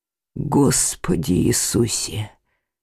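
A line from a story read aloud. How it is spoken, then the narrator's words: Hoarse wheeze. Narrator (Russian): прохрипел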